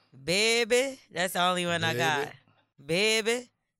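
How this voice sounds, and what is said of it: Put-on New Orleans accent. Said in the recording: “I need to pick me up a New Orleans accent”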